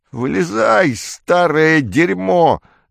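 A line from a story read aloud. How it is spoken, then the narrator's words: Yelling. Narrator (Russian): заорал он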